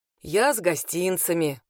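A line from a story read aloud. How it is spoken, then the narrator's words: Deep bass voice. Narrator (Russian): пробасила она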